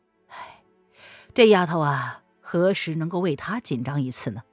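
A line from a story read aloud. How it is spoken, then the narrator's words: Sad sigh. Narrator (Chinese): 文燕心中有些心酸的叹了口气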